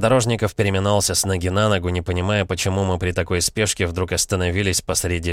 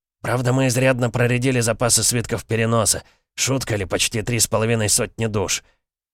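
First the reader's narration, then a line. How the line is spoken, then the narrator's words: Relieved exhale. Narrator (Russian): облегченно выдохнул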